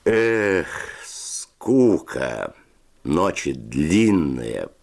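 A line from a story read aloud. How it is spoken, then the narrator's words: Drawn-out drawl. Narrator (Russian): протянул Федя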